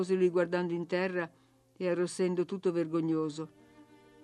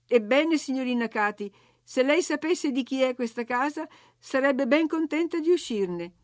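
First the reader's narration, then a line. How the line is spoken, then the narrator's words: Exasperated shout. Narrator (Italian): io, al colmo della sopportazione, gridai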